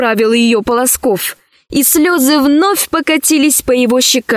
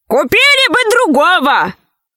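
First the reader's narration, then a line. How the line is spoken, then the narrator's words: Shout from crowd. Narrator (Russian): крикнули из толпы придворных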